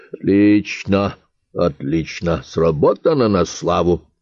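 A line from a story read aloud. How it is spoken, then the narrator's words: Muttering. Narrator (Russian): пробормотал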